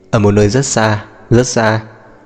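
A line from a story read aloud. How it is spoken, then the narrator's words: Laughing. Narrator (Vietnamese): Lý Minh Ngàn bật cười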